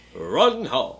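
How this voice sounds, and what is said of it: Deep radio-announcer voice. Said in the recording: “That's my radio voice.”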